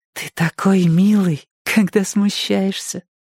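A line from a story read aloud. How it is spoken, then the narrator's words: Laughing whisper. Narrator (Russian): Кирстен засмеялась, прошептала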